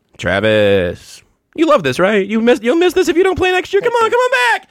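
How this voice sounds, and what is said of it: Impression of Nate Taylor. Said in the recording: “That's a good Nate Taylor impression. ... I would have gone to a higher register”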